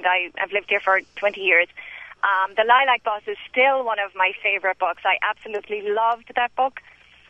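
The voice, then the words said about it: Irish accent. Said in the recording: “I'm Irish, as you can tell by my accent.”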